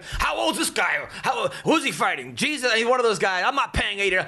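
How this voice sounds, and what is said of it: Imitates another person's voice. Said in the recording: “your dad impression”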